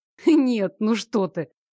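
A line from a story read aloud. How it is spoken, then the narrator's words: Guilty chuckle. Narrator (Russian): Я виновато хмыкнула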